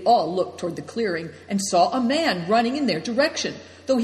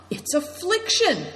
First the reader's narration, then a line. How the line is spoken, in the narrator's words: cried Christian